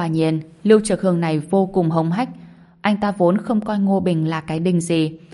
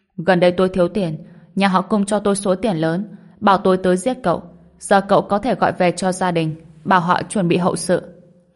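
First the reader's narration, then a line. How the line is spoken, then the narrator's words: Cold reply. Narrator (Vietnamese): Lưu Trực Hưng lạnh lùng đáp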